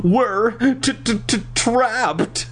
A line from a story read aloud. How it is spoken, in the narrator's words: Nicole stammered